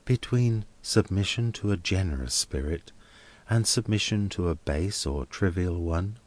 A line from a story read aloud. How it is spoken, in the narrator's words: asked Helena, with a little faltering in her manner